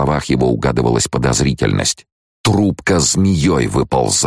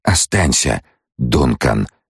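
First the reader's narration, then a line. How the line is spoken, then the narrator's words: Whisper. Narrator (Russian): прошептала Алия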